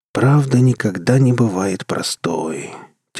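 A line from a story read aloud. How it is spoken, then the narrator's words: Heavy sigh. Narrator (Russian): тяжко вздохнул Рур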